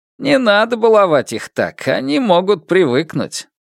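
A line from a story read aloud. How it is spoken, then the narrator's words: Laughing. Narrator (Russian): Фан Му рассмеялся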